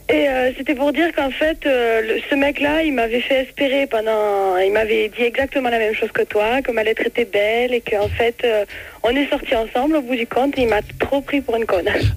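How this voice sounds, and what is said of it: Strong singing southern French accent. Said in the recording (French): “Oh quel accent ... mais c'est magnifique ... c'est beau, on entend chanter”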